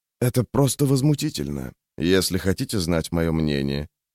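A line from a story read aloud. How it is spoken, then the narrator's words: Older man's undertone. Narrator (Russian): вполголоса сказал ему высокий человек, вероятно, лет на 10 старше, чем Лео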